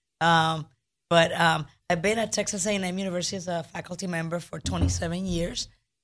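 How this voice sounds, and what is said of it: Hoarse, strained voice. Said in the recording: “forgive my voice. I've been dealing with a little bit of laryngitis”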